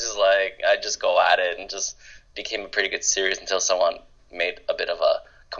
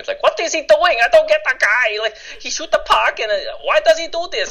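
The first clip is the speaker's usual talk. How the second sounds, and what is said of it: Put-on Asian immigrant accent. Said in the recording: “that's not even his real accent... I thought I'm allowed to do Asian accents because I'm Asian”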